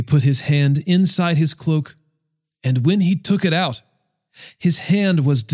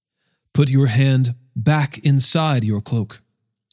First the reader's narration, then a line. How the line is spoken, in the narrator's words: said